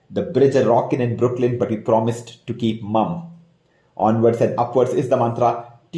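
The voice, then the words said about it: Indian English accent. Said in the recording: “your favorite NBA podcast in an Indian accent”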